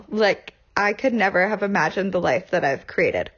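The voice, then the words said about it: Emotional, choked-up voice. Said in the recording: “Ooh, I'm getting a little emotional.”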